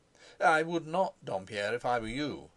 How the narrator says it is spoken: advised Carrados with a short laugh

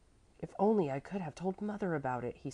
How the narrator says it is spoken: he sighed

